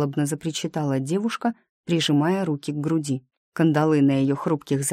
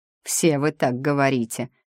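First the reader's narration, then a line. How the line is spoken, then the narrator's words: Rough rebuke, jailer. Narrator (Russian): грубо одернул тюремщик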